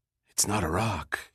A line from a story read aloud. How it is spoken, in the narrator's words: he said quietly